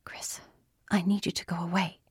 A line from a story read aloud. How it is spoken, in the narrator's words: she whispered fiercely